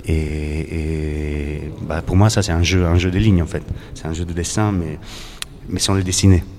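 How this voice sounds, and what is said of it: Slight Italian accent. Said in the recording (French): “On entend dans votre voix, un hein, léger accent italien.”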